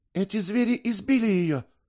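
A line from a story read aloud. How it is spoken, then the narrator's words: Exclaiming. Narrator (Russian): воскликнула Доркас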